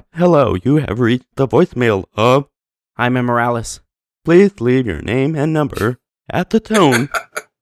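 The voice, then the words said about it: Robotic voice spoken while inhaling. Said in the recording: “I speak normal, but I'm breathing in ... I have to breathe in when I speak. So it sounds very robotic ... do that voice ... it really does sound like a robotic voice”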